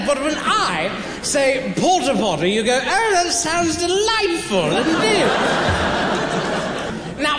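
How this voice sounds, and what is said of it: Posh high-class British accent. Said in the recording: “high-class British accent ... sounds sophisticated”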